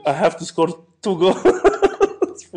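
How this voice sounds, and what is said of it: Argentinian accent impression of Aguero. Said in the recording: “Don't know what an Argentinian accent sounds like ... That's pretty close.”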